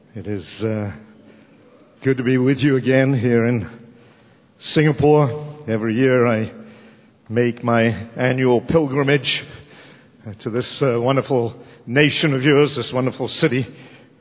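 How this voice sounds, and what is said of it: Slightly raspy, strained voice. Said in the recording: “my voice is a little raspy”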